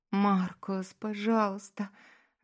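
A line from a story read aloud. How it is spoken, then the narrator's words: Impatient moaning. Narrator (Russian): застонала она от нетерпения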